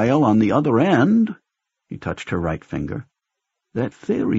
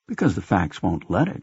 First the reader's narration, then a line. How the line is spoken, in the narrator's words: she murmured, fascinated and in truth a little frightened by the idea